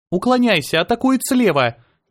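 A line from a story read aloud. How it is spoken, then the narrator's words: Shouted. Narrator (Russian): кричала она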